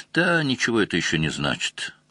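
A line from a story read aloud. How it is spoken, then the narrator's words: Dejected. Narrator (Russian): сказал Лаврик уныло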